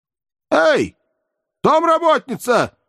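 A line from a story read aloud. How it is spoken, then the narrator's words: Shouted in dim hallway. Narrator (Russian): прокричал Никанор Иванович в полутемной передней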